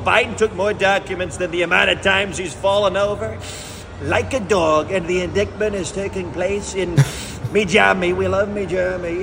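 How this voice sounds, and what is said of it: Raspy, strained Donald Trump impression. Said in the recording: “the best part of his impression ... It's the scratching of his vocal cords, where Trump ... sometimes there's this just expulsion of sound ... there's this tightening of the vocal cords”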